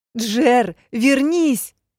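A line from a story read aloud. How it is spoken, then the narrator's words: Repeated shouting. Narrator (Russian): кричала я снова и снова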